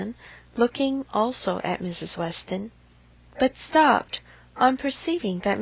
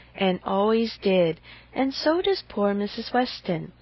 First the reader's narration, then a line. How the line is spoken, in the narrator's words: with half a sigh and half a smile at her